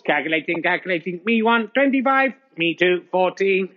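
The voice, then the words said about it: Robot voice. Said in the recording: “robot voice”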